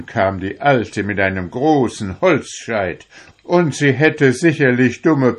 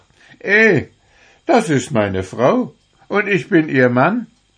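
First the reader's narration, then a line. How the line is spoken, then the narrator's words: Laughing. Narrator (German): lachte er und sprach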